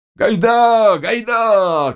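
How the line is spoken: Shouting. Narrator (Russian): кричал им Заглоба

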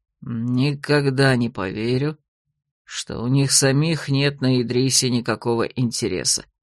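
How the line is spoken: Grumbling mutter. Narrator (Russian): ворчливо буркнул Гурант

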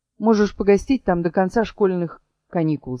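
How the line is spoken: Plain. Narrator (Russian): сказал

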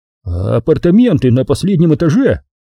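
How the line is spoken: Surprised voice. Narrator (Russian): сообщил он удивленным голосом

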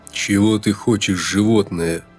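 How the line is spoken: Angry through teeth. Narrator (Russian): зло процедил он

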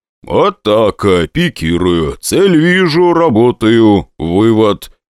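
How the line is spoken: Loud. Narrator (Russian): Громко проговаривает Гена Борзов

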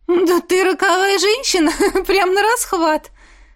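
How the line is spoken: Ringing laugh. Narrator (Russian): Звонко рассмеялась Чернобурова

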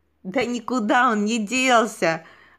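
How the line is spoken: Girl after laughing. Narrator (Russian): отсмеявшись, проговорила девочка

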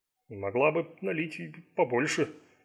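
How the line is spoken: Displeased mutter. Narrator (Russian): недовольно пробурчал

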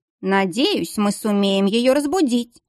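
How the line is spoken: Grumbling. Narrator (Russian): проворчала графиня

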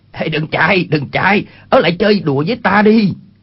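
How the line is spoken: Shouted call. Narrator (Vietnamese): Chu Bá Thông quát lên

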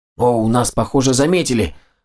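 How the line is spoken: Exclamation. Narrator (Russian): воскликнул Макс

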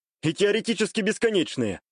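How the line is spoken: Snort. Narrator (Russian): хмыкнул

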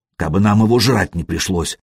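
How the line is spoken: Grumbling. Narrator (Russian): проворчал Шибрень

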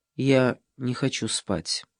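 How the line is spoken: Quiet. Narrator (Russian): Ева тихо сказала

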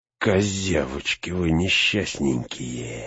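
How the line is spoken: Hissing. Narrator (Russian): зашипел Грышнак

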